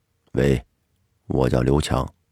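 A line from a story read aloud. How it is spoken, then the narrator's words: Cold male voice. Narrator (Chinese): 一个男人冷冷的声音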